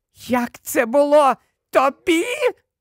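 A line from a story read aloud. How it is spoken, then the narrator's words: Extremely high-pitched shriek. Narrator (Ukrainian): Вона верещала на таких високих регістрах, що іще трохи, і ніхто, крім кажанів, мабуть, її не почув би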